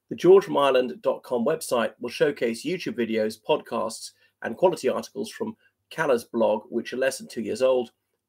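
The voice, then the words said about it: Standard British English accent. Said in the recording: “I'll read it my standard accent ... So that was standard British English.”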